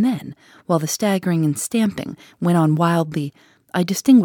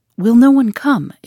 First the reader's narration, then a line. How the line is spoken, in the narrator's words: it cried